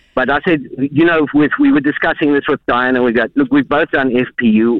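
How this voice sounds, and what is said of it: South African accent. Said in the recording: “Can I ask where your accents are from? ... It's South Africa. ... Oh, just lovely.”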